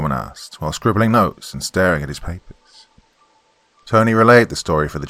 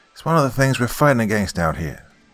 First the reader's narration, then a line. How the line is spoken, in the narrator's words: Foreman sighed